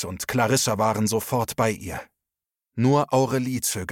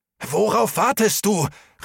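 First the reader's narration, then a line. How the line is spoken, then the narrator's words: Called out. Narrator (German): rief Max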